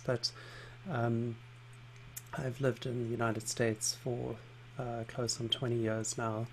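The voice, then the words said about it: Mixed South African-English accent. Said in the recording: “you have an accent ... I grew up in South Africa and spent some time living in London, but um, had an Irish father and don't have anything that is is easily labelled as a particular accent ... I often get confused for a, a Kiwi or an Australian um, or an English person ... my accent remains largely intact”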